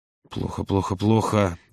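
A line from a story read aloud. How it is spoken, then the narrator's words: Muttering. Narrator (Russian): забормотал Володя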